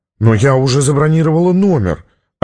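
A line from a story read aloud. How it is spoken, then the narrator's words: Offended woman. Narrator (Russian): обиженно сказала Сьюзан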